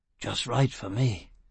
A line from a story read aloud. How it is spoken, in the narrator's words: Foyle muttered